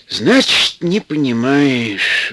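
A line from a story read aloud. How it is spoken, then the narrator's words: Sighing. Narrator (Russian): вздохнул Антип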